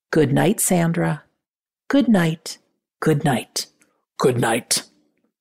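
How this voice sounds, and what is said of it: Imitates a voice heard on a recording. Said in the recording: “That's my best imitation of it.”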